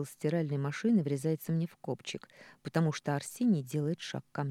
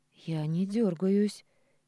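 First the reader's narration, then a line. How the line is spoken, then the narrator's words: Hoarse voice. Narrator (Russian): сиплю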